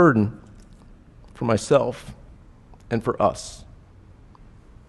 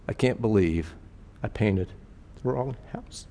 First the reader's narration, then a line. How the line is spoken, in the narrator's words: mumbling